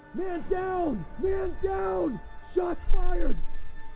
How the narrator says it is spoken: another cop yelling

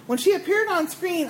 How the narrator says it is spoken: I exclaimed

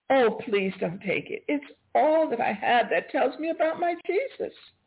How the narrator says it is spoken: again I cried

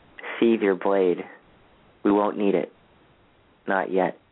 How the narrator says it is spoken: Rather calmly

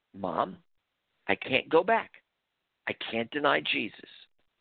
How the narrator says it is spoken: I gently informed her

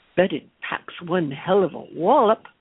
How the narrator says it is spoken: all dryly surmised

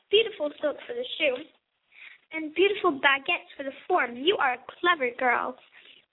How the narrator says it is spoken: Monsieur Luc cried

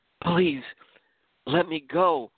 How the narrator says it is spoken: Rahane nervously pleaded

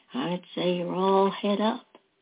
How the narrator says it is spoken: David said softly

